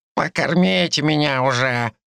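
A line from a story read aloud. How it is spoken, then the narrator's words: Grumbling. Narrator (Russian): проворчала Лариса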